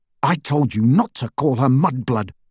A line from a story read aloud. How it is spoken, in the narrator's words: snarled Harry